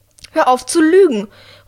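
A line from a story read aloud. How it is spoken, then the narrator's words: Calling out. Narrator (German): ruft Drea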